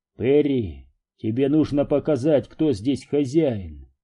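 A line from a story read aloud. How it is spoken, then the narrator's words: Calm advice. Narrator (Russian): спокойно посоветовал Дью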